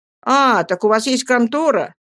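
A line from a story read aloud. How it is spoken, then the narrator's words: Exclamation. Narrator (Russian): воскликнул я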